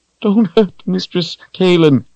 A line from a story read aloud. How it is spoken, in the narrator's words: Richard cried